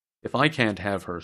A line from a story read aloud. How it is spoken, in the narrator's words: said the other